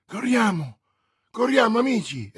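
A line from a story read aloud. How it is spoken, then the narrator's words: Exclamation. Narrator (Italian): esclamò D'Artagnan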